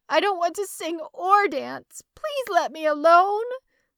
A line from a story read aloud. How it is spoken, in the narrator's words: I burst out crying, sobbing